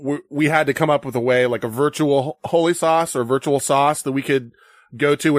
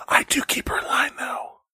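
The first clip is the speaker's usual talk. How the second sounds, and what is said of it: Quiet, hushed voice. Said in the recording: “In a fucking quiet voice.”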